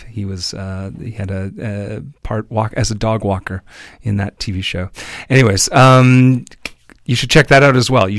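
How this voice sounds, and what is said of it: Scratchy voice. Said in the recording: “Sorry about my voice. I don't know why I'm so scratchy today”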